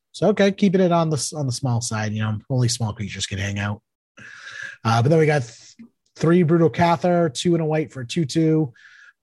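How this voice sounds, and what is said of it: Boston accent. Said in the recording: “That's the Boston accent.”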